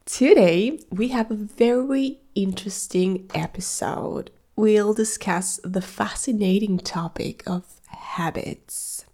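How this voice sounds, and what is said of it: Sick-sounding voice. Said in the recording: “I'm a little sick, so I'm sorry for my voice.”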